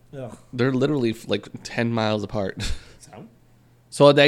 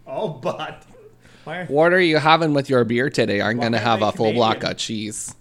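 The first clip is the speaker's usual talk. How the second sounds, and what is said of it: Put-on Wisconsin accent. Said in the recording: “The Wisconsin accent is very similar to a Manitoban.”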